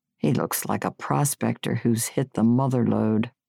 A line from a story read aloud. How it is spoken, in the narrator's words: said under his breath